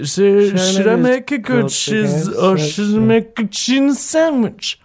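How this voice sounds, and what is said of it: Slurred drunk-sounding voice. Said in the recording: “I read this in a real drunk voice.”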